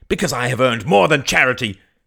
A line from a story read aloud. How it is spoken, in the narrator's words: cried Mary